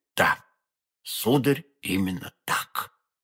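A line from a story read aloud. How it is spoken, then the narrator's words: Barely audible frightened whisper. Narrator (Russian): чуть слышно в страхе прошептал посетитель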